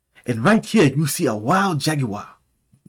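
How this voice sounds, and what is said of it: Fake put-on accent. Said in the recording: “You gonna get a fake accent too.”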